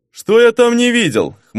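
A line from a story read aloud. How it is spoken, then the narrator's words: Scoffing. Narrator (Russian): хмыкнул герцог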